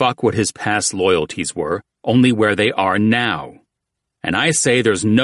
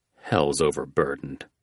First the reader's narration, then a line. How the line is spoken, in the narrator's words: Jackal muttered